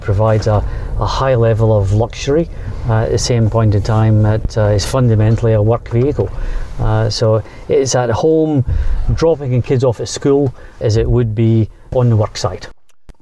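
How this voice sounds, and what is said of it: Distinctive accent. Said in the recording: “your distinctive accent”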